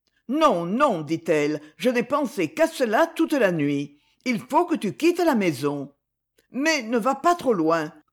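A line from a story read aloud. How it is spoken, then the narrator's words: Exclaiming, courage suddenly failing. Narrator (French): s'écria-t-elle, son courage l'abandonnant tout à coup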